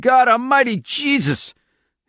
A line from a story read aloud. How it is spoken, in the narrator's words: Eddie Delgado looked down and screamed